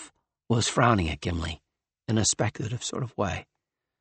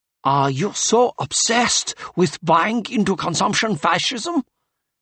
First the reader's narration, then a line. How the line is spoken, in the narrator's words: sneered the redhead